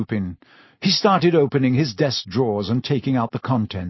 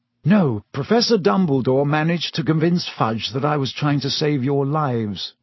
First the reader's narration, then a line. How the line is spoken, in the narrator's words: he sighed